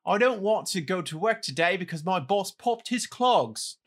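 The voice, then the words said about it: Put-on British accent, childlike. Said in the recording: “do it in your British accent ... Why did your British accent that time sound like Tiny Tim? Or no, it sounded like Oliver.”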